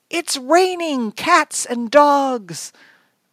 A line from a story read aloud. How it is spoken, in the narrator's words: Mom yelled out